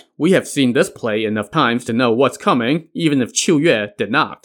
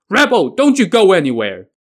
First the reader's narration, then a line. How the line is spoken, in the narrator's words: he gave chase and shouted